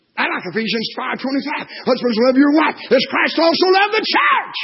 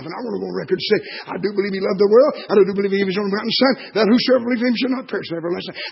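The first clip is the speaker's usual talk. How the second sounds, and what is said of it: Very fast speech. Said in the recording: “saying that fast”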